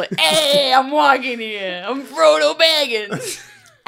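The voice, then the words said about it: Yelling in a put-on New York accent. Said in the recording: “he yells in a New York accent constantly”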